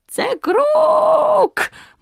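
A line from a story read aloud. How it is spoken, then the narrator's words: Eerie shriek. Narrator (Ukrainian): моторошно заверещав Круть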